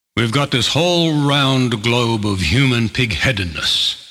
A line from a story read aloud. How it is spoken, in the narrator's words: growls